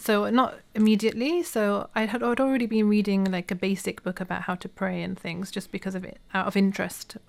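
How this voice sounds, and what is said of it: British accent. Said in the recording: “I'm assuming you're British ... from the accent.”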